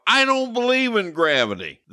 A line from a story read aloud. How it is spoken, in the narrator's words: shout